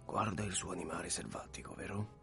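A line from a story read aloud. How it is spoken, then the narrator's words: Quiet question. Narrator (Italian): Book gli domandò sottovoce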